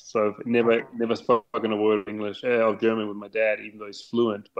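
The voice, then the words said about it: English accent sounding almost Australian. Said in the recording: “your accent kind of sounds Australian almost to me ... my accent is definitely not a German English accent.”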